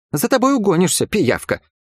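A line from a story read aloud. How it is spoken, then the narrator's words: Irritated snort. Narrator (Russian): раздраженно фыркнула Йоула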